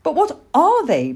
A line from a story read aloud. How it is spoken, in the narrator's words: begged Plop